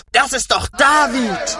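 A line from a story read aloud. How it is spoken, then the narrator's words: Group screaming. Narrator (German): schrien sie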